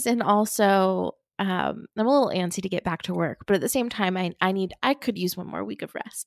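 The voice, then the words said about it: Congested, stuffy-sounding voice. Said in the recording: “you might hear in my voice, ... I believe I have a sinus infection right now. So I would love for my voice to sound normal, but if it sounds off, that's because I'm a little congested.”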